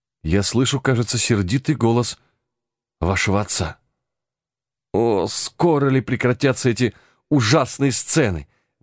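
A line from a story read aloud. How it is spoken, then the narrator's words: Muffled, distressed exclamation. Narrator (Russian): воскликнула Юдив, закрывая обеими руками свое лицо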